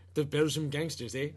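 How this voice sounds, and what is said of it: Poor attempt at Belgian accent. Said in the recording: “I'm bad with accents. I don't know what. I don't know what a Belgian accent.”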